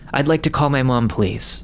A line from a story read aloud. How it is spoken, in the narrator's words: said